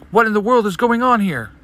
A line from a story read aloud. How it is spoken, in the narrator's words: Naminé shouts